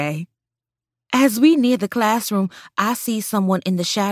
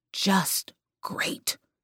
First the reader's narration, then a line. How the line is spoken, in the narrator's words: mutter